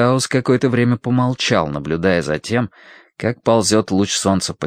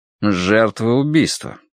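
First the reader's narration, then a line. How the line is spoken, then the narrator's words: Impassive voice. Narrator (Russian): сказал он бесстрастным голосом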